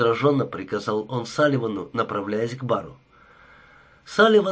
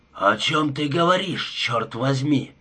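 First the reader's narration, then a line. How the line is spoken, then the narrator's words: Growling into phone. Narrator (Russian): прорычал он в трубку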